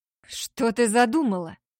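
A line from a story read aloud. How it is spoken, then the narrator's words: Growled. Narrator (Russian): прорычал Ричард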